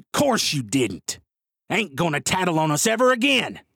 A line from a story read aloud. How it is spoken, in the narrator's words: Stephen says, snarling like a rabid coyote